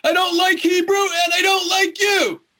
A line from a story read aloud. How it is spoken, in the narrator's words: More yelling